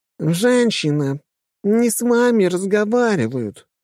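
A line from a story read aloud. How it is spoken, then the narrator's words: Nasal voice. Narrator (Russian): гнусавым голосом сказала спутница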